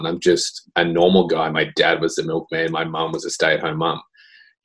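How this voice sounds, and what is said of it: Australian accent. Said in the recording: “I'm just a typical Aussie dude ... As you can tell from the accent, I'm not from here ... I did grow up in Australia”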